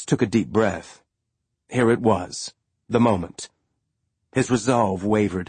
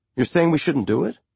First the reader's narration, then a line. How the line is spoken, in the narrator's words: Holden said, his tone vaguely hurt